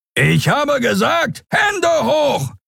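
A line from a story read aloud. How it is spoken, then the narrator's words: Roaring. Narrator (German): brüllte der Skria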